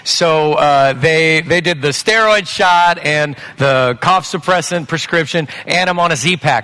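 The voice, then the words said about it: Lower, sick-sounding voice. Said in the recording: “Some of you can already hear my voice is a little bit lower register than normal ... upper respiratory diagnosis”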